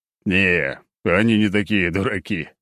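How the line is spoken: Old man's chuckle. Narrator (Russian): хохотнул старик

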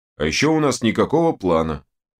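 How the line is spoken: Booming, muffled from barrel. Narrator (Russian): прогудел из своей бочки Данила

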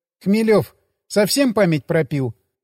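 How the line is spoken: Snorted. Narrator (Russian): фыркнула Ирина

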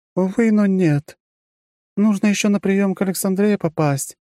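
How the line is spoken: Sighing again. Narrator (Russian): снова вздохнула графиня

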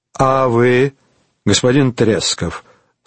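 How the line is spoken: Calm question. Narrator (Russian): спросил он спокойно

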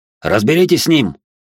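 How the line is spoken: Barked. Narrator (Russian): рявкнул один из студентов

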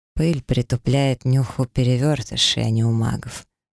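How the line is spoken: Calm relaxed male voice. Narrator (Russian): совершенно непринужденно и спокойно ответил мне мужчина

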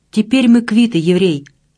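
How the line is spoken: Hoarse, strained. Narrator (Russian): хрипло выдавил он

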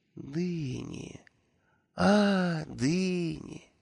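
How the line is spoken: Slow, drawn-out. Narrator (Russian): медленно произнес Нюмрот

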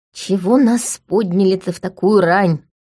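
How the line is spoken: Displeased grumble. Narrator (Russian): недовольно проворчала Лика

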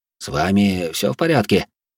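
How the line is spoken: Worried voice. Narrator (Russian): обеспокоенным голосом поинтересовался Огюст

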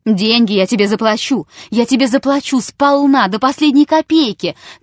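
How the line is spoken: Shouting. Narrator (Russian): кричал Чертабханов

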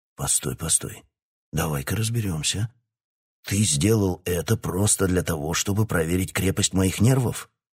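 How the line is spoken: Stunned breathless exhale. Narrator (Russian): Ошеломленно выдохнул король

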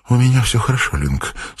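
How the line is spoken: Weak voice. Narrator (Russian): слабым голосом проговорила она

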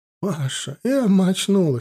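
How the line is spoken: Tearful. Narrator (Russian): сквозь слезы проговорила Клара Васильевна

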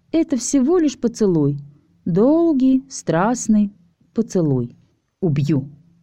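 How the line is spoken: Quiet but very firm. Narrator (Russian): Тихо, но очень твердо повторила Алиса

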